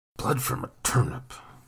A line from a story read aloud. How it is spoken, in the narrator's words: Nathan mumbled